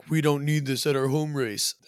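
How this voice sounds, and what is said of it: Mock Red Bull PR voice. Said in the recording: “That's my Red Bull PR voice.”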